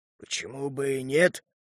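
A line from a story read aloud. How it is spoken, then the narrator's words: Hoarse wheeze. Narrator (Russian): просипел Харт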